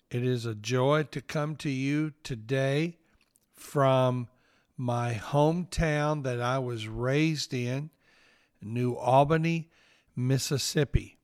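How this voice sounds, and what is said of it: Southern US accent. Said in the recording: “I know that you know that I have a Southern accent.”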